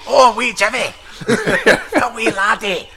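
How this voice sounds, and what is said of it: Put-on Scottish accent. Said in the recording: “I put my Scottish accent on.”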